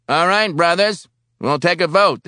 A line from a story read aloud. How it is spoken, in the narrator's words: the chairman shouted